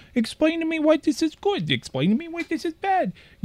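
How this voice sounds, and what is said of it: Baby voice with a stutter. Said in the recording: “What was that baby voice? ... why did it have a stutter?”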